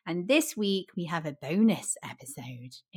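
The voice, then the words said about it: Scary voice. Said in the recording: “in a scary voice”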